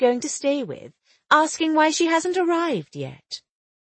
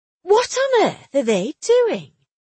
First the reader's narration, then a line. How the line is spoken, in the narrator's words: she exclaimed